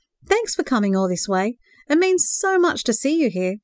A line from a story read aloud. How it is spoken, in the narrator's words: he exclaimed